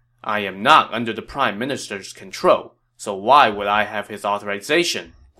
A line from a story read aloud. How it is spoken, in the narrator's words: Guan Yu said